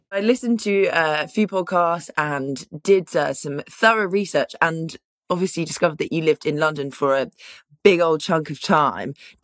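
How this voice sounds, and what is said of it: English accent. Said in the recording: “It's lovely to hear your accent. I miss England so much.”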